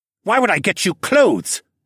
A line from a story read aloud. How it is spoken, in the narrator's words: snapped